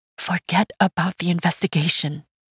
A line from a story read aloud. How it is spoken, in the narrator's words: fear whispered in my mind